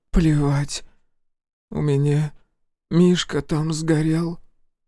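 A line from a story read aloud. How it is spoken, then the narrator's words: Hoarse voice. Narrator (Russian): хрипло сказала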